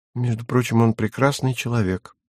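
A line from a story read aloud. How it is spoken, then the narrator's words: Sudden quiet. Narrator (Russian): сказала вдруг она тихо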